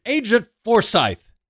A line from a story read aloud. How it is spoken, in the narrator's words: shouted